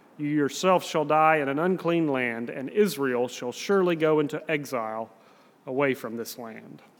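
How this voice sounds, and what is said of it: Southern US accent. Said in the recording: “I have a southern accent ... other people who speak with a southern accent ... I can sort of hear my accent”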